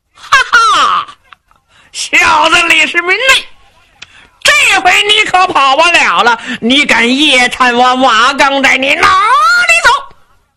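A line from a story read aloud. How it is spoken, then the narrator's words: Loud laughter. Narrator (Chinese): 忽然听见一个人是哈哈大笑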